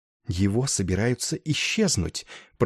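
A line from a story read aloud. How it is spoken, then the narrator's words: Whisper. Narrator (Russian): прошептала мисс Дакет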